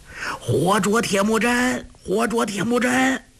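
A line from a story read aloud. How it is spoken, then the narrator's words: Crowd cheering and shouting. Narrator (Chinese): 敌兵齐声欢呼 四下里都大叫起来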